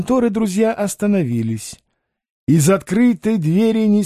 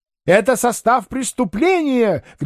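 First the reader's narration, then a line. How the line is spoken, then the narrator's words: Trainees shouting together. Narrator (Russian): кричали практиканты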